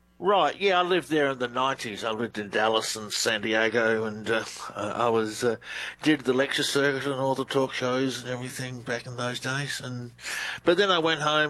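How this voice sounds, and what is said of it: Australian accent. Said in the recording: “Australian researcher. Love the accent... Australian, you'll hear Australian accent... You do. You have a great one.”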